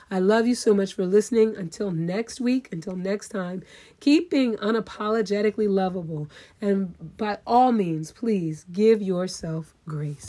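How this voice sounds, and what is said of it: Strained, failing voice. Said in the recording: “my voice is going to give out at any second”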